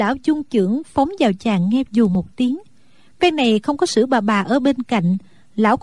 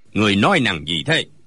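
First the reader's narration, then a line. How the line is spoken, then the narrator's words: Old man's sharp shout. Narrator (Vietnamese): Lão liền quát lên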